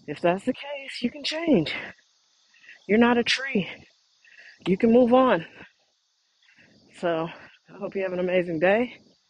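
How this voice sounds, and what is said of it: Breathless, panting speech. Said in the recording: “That hill kicked my ass. I'm out of breath.”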